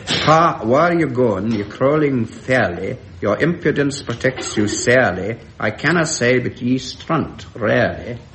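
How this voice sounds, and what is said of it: Poorly done put-on Scots accent. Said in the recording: “I just cannot do this accent at all”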